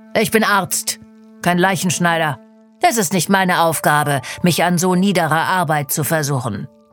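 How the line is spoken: Arrogant voice. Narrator (German): sagt mit überheblicher Stimme

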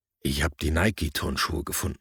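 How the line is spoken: Plain. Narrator (German): sagte ich

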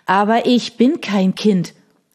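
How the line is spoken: Tearful whining boy. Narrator (German): jammerte der Junge, brach in Tränen aus

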